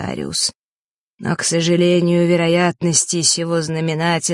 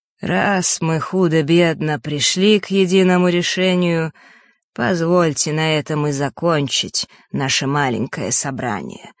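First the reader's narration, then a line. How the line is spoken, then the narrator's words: Plain. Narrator (Russian): сказал Астариус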